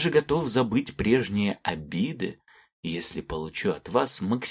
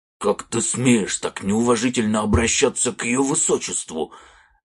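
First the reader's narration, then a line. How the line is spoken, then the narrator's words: Barked. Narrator (Russian): рявкнул капитан стражи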